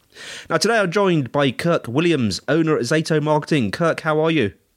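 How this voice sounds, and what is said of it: Congested, cold-affected voice. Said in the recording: “I've got a cold. I don't normally sound as sexy as this.”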